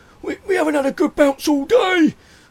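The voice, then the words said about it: Poor attempt at Sheffield accent. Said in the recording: “that's a very poor accent. My accents are not coming off today. I've got to work on my accents. That was not a Sheffield accent.”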